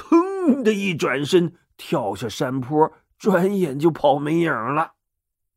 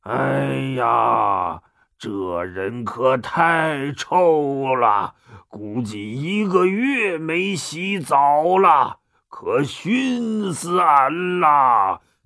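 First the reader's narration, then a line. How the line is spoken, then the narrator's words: Disgusted roar. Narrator (Chinese): 很嫌弃的嗷咆哮了一声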